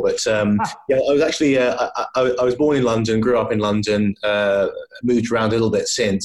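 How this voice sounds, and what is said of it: Plummy English accent. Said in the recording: “you can probably tell by my accent that I'm not a Scotsman by birth ... stereotyped plummy English accents ... Accent is plummy”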